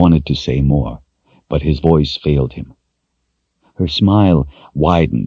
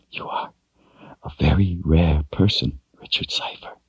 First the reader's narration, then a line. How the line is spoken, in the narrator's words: she whispered